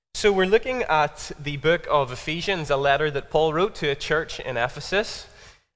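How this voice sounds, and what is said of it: Northern Irish Belfast accent. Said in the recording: “I'm from Belfast, if you haven't already grasped that from my accent.”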